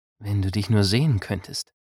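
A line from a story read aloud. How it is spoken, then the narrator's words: Reverent whisper. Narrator (German): wisperte sie fast andächtig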